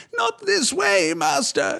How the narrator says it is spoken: pleaded

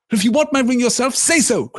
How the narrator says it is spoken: cried Bilbo

